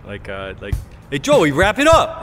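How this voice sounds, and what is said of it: Brooklyn Italian-American accent. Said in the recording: “Oh, like my Brooklynite Italian ... how my uncle would do it.”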